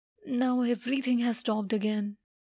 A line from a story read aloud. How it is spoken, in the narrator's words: she used to say sadly